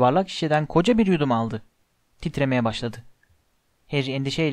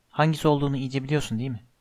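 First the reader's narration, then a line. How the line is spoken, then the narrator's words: Plain. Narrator (Turkish): dedi Hermione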